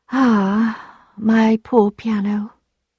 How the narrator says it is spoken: said Emma, she would say sadly

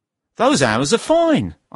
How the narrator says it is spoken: I said happily

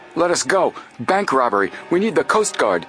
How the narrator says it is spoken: Frank said, gasping

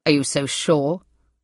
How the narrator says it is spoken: said Hugh roughly

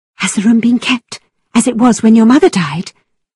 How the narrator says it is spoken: asked eagerly

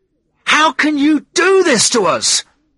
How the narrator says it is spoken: yelled

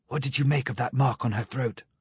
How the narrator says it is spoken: I asked the professor in a whisper

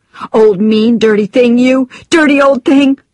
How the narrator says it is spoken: screamed

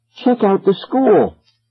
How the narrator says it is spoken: gasped

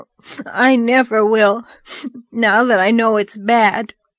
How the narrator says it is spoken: asseverated Davy between sobs

